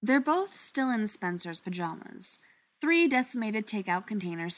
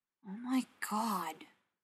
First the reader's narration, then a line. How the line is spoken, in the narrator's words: Ryan mutters